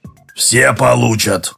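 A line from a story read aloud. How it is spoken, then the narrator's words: Grumble, facing away. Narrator (Russian): проворчал Краюхин, не оборачиваясь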